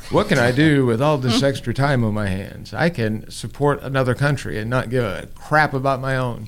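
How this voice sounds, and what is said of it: Mocking impression of a friend. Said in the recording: “Sorry, Paige, I'm doing an impression of you.”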